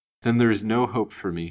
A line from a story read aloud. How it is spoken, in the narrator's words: moaned faintly